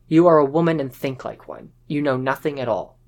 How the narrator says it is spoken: Apu replied curtly

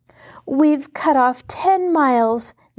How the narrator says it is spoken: Nancy cried joyfully

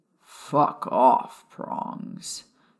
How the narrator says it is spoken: Sirius mumbled

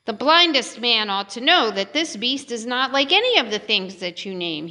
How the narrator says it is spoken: he said

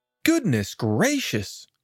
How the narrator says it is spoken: exclaimed the rat, who was both soft-hearted and curious

